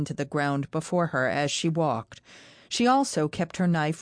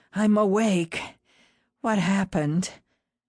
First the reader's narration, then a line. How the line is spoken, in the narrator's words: She rasped